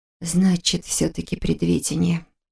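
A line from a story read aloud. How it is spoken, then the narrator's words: Tense mumble. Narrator (Russian): пробормотала она, кусая губы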